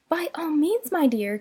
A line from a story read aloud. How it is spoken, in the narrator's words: cried Mrs